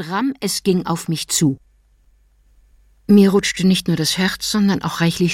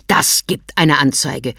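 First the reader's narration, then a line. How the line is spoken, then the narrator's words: Snapping. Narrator (German): schnauzte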